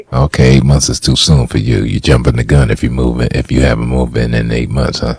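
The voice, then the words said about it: Sexy, smooth speaking voice. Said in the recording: “That's a sexy voice you got.”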